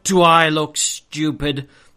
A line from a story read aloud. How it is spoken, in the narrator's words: snarled Uncle Vernon